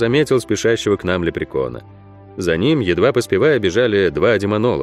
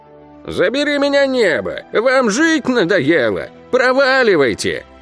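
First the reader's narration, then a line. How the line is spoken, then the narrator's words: Old man yelling. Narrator (Russian): Вопил старый высохший стручок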